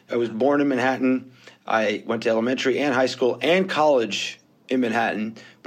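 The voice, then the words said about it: New York accent. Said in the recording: “as you hear from my accent, I'm not originally from Israel. I was born, bred, and raised in New York”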